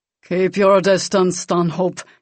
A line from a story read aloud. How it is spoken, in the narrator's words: growled